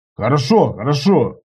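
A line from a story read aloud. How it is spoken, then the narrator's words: Shouting from a distance. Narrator (Russian): нашелся Иваныч, прокричав с мостика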